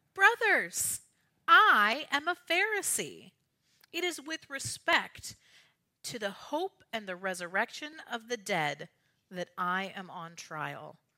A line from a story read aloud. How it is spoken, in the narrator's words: cried out